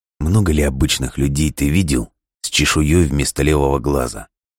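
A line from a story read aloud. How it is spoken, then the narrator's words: Plain. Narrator (Russian): спросил он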